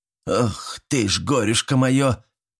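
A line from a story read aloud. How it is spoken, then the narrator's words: Mock grumbling. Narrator (Russian): притворно заворчала баба Стеша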